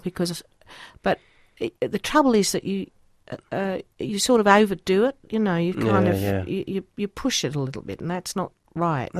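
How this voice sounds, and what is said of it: Put-on Australian accent. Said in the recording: “Australian accent's a very hard one to do ... I'll try to go into one now ... That's not bad. Where's that, Queensland? ... It's definitely kind of got a knocker quality. ... There's something north about that”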